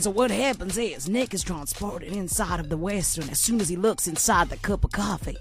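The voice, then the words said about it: Put-on cowboy voice. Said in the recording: “do it in your normal voice? ... I want to be a cowboy.”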